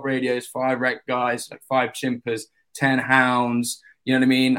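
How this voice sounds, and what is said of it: London English accent. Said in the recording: “The boys are liking your accent... This is proper, you know, proper English here.”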